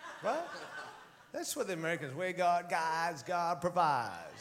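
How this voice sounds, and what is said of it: Put-on American accent. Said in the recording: “can I be American for a moment? ... With that accent, too.”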